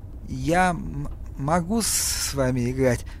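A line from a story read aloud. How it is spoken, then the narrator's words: Nervous stammer. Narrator (Russian): заикаясь еще сильнее, сказал Пол и почувствовал, что даже взмок от волнения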